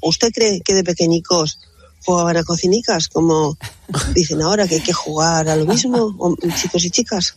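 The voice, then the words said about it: Regional Spanish accent. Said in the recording (Spanish): “qué salada eres... me encanta tu acento”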